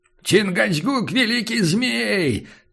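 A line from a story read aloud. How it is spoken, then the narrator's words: Solemn loud cry. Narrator (Russian): торжественно завопил индеец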